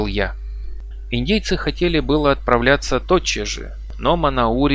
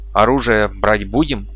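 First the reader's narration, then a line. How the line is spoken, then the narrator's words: Plain. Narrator (Russian): спросил меня Арнак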